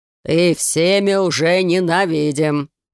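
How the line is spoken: Deep bass voice. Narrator (Russian): пробасил господин Рома

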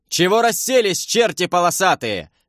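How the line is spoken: Yelled. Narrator (Russian): завопил я

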